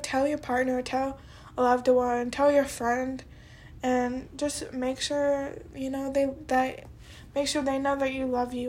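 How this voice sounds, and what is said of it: Voice sounding congested from a cold. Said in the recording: “I have a cold. ... But I have a cold”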